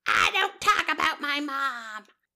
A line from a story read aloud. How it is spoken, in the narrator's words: she screamed at Jessel saying